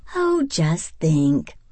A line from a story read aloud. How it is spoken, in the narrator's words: her mother sighed happily